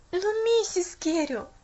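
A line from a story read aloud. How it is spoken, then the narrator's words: Desperate exclamation. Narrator (Russian): наконец воскликнула Поллианна в отчаянии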